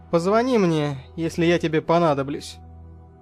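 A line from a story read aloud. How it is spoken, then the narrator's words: Dry, curt. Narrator (Russian): Сухо бросил я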